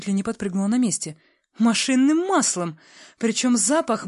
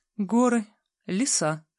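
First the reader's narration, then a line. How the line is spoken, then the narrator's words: Sighing again. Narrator (Russian): вздохнула в очередной раз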